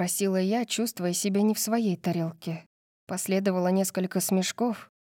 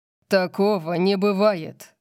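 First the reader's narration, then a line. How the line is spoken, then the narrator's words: Growled. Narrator (Russian): прорычал Орион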